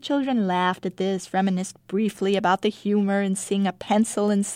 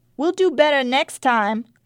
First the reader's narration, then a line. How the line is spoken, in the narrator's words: Contessa called out brightly